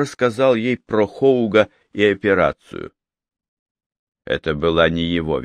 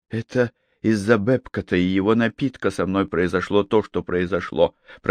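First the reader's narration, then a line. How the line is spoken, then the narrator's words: Barely audible, chilling. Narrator (Russian): проговорила она чуть слышно, и от звука ее голоса холодок пробежал у него по коже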